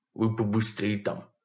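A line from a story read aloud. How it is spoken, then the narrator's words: Soft whisper in ear. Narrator (Russian): тихо прошептал он мне на ухо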